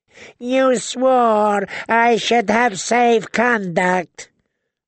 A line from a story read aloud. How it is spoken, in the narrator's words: the Yunkish envoy wailed